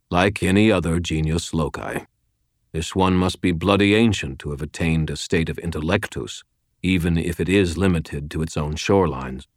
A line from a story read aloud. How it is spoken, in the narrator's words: Morgan rumbled